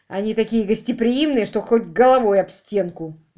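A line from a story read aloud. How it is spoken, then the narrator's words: Grumbled. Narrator (Russian): буркнула Аманда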